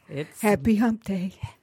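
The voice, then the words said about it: Sultry, sexy voice. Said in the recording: “with that sultry ... voice. ... Sexy voice.”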